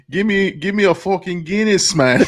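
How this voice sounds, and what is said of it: Irish accent drifting into Jamaican. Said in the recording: “all my fucking accents turn into Jamaican accents ... it's already got Irish there ... I'm Irish Jamaican.”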